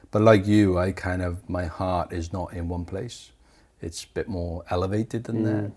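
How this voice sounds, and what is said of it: Welsh accent. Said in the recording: “I can't separate my Welshness from me because of my accent”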